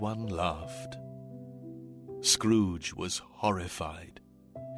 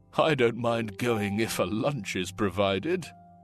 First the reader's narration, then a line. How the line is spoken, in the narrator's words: one of the men chuckled